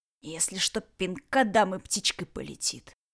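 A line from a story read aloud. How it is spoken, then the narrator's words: Grumbled. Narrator (Russian): буркнул Ред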